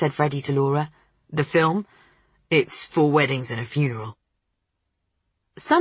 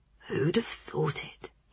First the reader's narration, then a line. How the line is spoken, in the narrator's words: he whispered